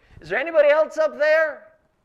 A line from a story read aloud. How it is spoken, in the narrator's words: you're yelling